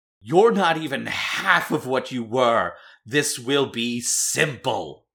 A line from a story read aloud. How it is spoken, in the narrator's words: He yells down into the mayor's residence and says